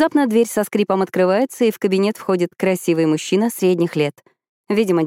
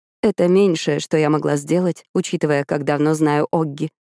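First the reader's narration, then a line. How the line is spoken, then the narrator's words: Mother speaking quietly. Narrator (Russian): тихо говорит мама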